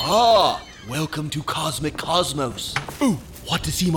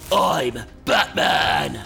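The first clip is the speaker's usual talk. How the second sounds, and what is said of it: Batman impression voice. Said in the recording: “see my Batman impersonation?”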